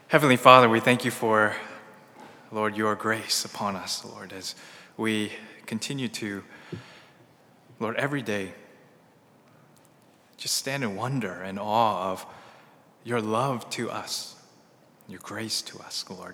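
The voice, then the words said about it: Strained, hoarse, worn-out voice. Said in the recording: “I think I lost my voice already from doing the praise.”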